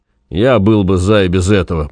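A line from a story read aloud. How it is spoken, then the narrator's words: Grumbling around a pipe. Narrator (Russian): проворчал доктор, попыхивая трубкой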